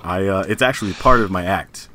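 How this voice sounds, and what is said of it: Exaggerated deep, low emo voice. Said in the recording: “Your voice is a lot deeper emo. ... Since you have a lower voice”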